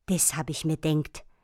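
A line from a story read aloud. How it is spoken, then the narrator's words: Hissed from behind. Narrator (German): zischte es von hinten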